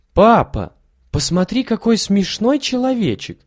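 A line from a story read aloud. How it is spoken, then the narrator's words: Sudden child's exclamation. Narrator (Russian): вдруг воскликнула девочка из коляски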